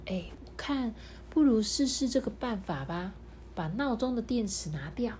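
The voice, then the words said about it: Soft, quiet whispering voice. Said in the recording (Chinese): “小声的”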